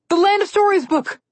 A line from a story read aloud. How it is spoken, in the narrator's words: Connor yelled